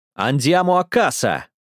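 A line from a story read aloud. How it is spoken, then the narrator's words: Shouting soldier. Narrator (Russian): закричал солдат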